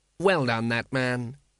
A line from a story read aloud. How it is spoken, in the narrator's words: said the patrician thoughtfully